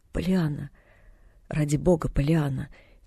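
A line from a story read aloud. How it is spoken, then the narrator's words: Quiet pleading reply. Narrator (Russian): тихо возмолился в ответ мистер Пентон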